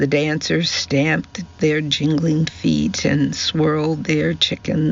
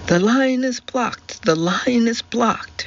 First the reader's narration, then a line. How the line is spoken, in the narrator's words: shrieked Daisy